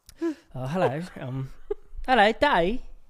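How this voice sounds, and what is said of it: Attempted British accent, sounds Australian. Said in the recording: “Okay, British, go. ... that sounded a little Australian”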